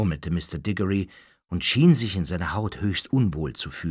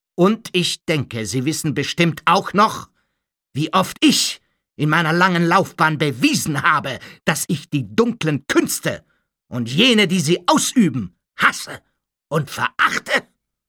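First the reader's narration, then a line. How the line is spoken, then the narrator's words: Calling out. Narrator (German): rief Mr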